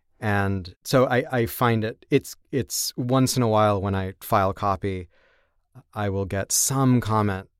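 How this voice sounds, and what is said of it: American accent. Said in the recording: “sounding very American”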